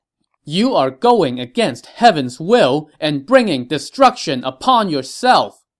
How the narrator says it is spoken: Gong Zhi shouted

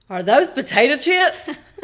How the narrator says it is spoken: he shouted

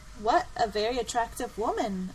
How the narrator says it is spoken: exclaimed

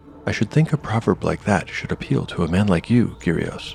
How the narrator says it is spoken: said Umura

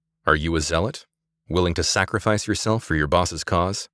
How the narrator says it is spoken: Samantha asked

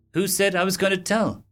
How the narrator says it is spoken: She said calmly

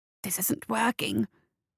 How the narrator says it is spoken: hissed

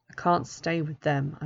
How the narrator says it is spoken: mutter

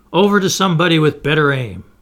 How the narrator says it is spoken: the commander shouted

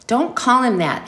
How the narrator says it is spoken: his mother cried

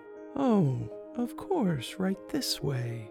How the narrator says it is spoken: Callie replied in her squeaky butterfly voice

